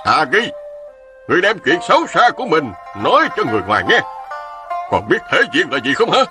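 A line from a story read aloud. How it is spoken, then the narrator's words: Shouting. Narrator (Vietnamese): Ôn Phương Sơn hét lên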